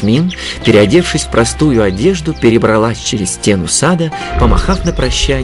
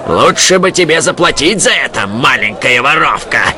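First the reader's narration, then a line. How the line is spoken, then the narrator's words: Growling. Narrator (Russian): прорычал он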